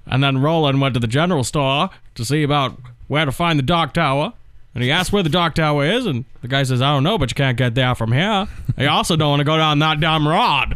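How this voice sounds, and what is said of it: Maine accent, Stephen King impression. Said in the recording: “It's going to sound like a guy from Maine reading a book. ... I'm not really good with the Maine accent.”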